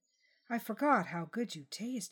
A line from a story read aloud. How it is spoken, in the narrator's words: whispered